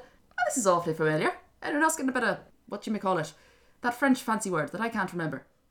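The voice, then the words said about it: Bizarre put-on Kerry Irish accent. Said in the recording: “I don't know why I'm doing this bizarre accent ... You're turning into your Kerry accent again ... I'm turning into a leprechaun”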